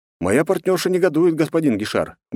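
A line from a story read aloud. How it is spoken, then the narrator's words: Snort. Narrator (Russian): хмыкнул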